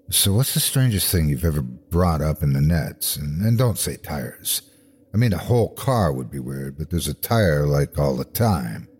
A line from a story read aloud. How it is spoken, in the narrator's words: I ask in a low tone